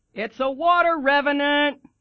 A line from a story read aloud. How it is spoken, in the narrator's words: Chrissy shouts at Jack